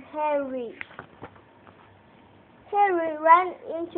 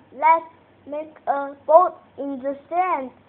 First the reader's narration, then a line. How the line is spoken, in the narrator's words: said Harry